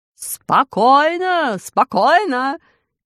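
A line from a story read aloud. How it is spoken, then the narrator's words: King shouting. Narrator (Russian): кричал король Смоль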